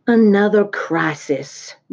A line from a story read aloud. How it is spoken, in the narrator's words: groaned Fern